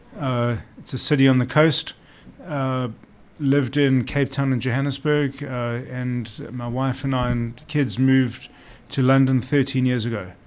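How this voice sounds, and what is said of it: South African accent. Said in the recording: “I hear a little South African accent in there ... You can hear a lot of South African in there.”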